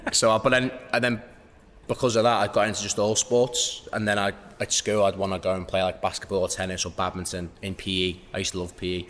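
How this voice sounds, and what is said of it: Noticeable regional English accent. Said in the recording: “Obviously, with the accent, did you grow up in London? ... No, so I was born in the Wirral”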